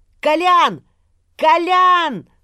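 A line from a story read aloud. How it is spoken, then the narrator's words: Impatient shout. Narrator (Russian): закричал от нетерпения, подпрыгивая на месте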